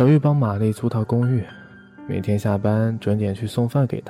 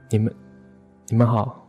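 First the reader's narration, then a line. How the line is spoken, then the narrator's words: Stammering. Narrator (Chinese): 他结结巴巴说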